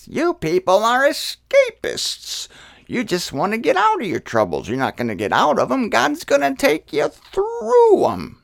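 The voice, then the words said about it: Impression of a preacher's voice. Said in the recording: “That's how he talked. That's a pretty good impression”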